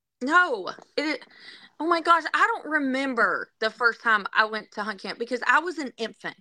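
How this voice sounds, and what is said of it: Southern accent. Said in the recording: “a Wisconsinite with a Southern accent.”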